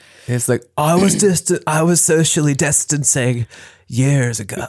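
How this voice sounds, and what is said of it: Imitates another person's voice. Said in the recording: “terrible impression”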